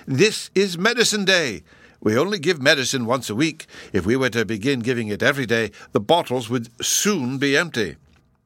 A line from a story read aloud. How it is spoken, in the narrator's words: he cried